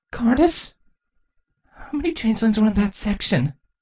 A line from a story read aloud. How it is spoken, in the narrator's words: Twilight shakily asked